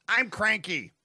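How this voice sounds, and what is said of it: Imitates another person's voice, cranky. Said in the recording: “That's my Tony Kornheiser impression... Too cranky.”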